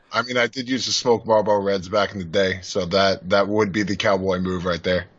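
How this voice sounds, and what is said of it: Deep, low male voice. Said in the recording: “you have a nice, like, deep voice ... that's what a man is supposed to sound like ... some John Wayne shit ... deep voice”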